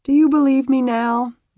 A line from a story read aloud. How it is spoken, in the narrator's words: Beth asked around a wide yawn